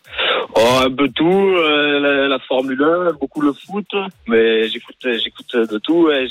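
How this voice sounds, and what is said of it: Southern French accent. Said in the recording (French): “un petit accent ... un peu du Vaucluse, du Sud”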